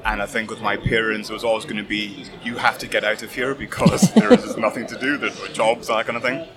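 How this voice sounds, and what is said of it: Gentle Scottish accent. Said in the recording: “You have a very gentle Scottish lilt”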